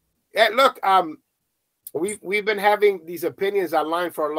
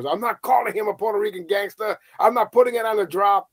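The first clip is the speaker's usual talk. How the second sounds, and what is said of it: Angry imitation of another person. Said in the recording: “my impression of the angry Angel Mena”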